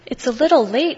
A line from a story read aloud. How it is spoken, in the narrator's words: Mouse squeaks